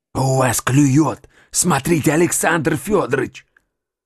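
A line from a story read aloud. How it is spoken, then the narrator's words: Whisper. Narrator (Russian): Вдруг шепотом сказал Костяков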